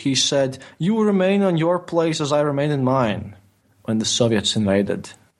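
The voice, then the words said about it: Non-native English accent. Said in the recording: “my English pronunciation is not that great, because English is not my native language ... my accent”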